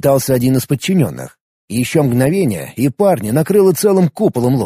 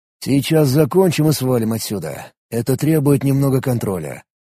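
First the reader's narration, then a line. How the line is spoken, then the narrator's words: Quiet. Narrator (Russian): негромко произнес он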